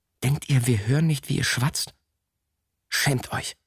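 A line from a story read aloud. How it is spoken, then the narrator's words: Hissed. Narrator (German): der andere zischte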